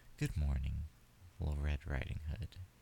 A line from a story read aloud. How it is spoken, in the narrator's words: he said